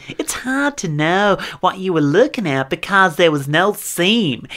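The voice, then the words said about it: Speaking in a put-on accent. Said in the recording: “Still going with that accent.”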